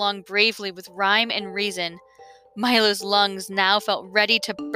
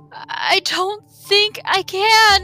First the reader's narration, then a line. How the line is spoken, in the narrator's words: he gasped